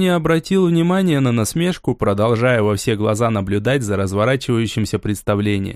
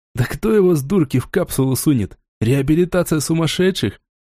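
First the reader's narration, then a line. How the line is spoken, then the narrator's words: Short laugh. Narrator (Russian): Хохотнул игрок с ником Джек Котофей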